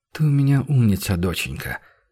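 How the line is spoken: Sighing. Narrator (Russian): она вздохнула

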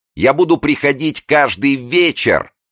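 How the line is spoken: Shouting with eerie gaiety. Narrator (Russian): со страшной веселостью кричала она

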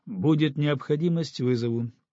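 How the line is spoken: Dry reply. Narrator (Russian): сухо ответил Тимур Ахмедович

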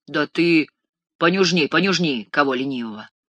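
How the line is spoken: Menacing voice. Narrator (Russian): грозным голосом советовал маршал

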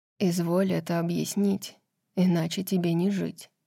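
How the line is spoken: Quiet, deadly menacing. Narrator (Russian): тихо сказал Азриэль, и в его голосе прозвучало обещание смерти

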